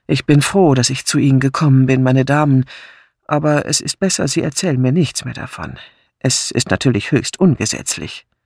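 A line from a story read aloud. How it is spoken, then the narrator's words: Sighing. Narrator (German): Seufzend sagte Craddock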